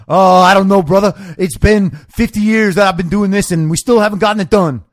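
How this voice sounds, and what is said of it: Imitates another person's voice. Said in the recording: “I know that wasn't a good Cornell West impression ... It's a very strange manner of speaking.”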